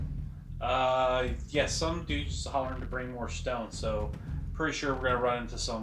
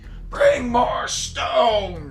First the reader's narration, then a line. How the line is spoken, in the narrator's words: a voice yelling